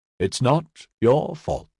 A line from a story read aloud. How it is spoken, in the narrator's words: Finnerton said gently